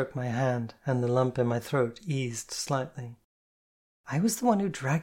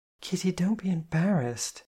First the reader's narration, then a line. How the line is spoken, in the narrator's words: she said kindly